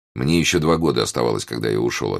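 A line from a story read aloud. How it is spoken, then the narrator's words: Plain. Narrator (Russian): ответил он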